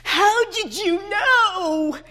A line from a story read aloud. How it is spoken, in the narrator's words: he wailed